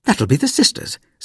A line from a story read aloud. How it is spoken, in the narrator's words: said Mother brightly